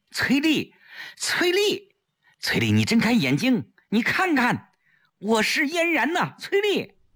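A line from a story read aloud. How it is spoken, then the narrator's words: Loud desperate calling. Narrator (Chinese): 大声叫着她的名字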